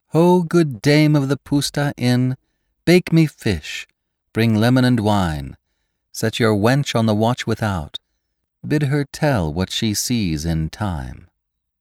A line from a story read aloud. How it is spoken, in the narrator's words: she sang in her sweet, clear voice